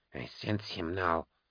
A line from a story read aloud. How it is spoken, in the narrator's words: Keener muttered